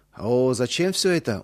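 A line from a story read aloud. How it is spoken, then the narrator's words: Surprised drawl. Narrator (Russian): удивленно протянул Иосиф Дмитриевич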